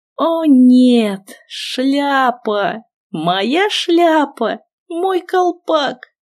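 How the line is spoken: Whimpering. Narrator (Russian): захныкала

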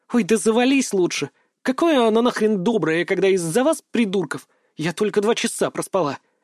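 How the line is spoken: Nervous snap. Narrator (Russian): Нервно огрызнулась

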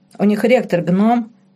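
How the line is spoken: Chuckling. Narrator (Russian): хохотнул Морено

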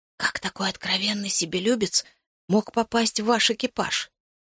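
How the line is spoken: Whispered question. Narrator (Russian): я шепотом спросил у командира

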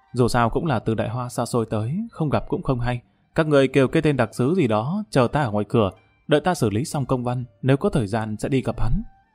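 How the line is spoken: Quiet, embarrassed. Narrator (Vietnamese): mặt mũi đỏ bừng nhỏ giọng nói

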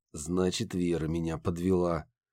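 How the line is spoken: Through gritted teeth. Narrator (Russian): сквозь зубы процедил Рагнар

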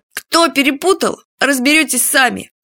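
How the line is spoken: Snide snort. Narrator (Russian): Уже с прежней ехицей хмыкнул Фадейка

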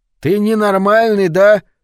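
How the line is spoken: Yelling again. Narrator (Russian): снова завопил Лучи

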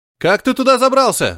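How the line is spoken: Shouting. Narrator (Russian): закричал Стив

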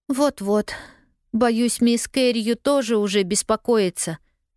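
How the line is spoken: Sigh. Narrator (Russian): вздохнула Полианна

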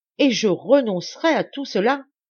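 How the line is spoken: Crying out. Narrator (French): s'écria enfin

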